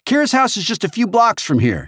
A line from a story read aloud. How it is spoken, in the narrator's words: shouted over her shoulder